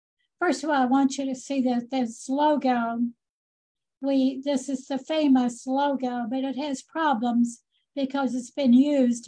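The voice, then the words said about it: Hoarse, losing voice. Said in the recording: “I'm losing my voice.”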